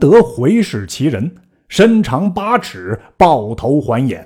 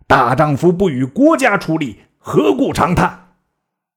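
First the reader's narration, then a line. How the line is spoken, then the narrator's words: Stern, harsh. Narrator (Chinese): 一人厉声言曰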